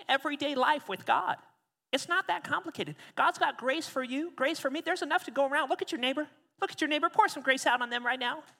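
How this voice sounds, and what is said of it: Imitates another person's voice. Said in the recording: “that was decent impersonation, not bad”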